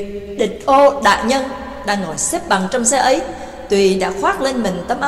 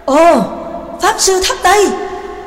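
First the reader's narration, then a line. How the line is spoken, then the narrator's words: Surprised group exclamation. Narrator (Vietnamese): cả bọn đều cùng kinh ngạc thốt lên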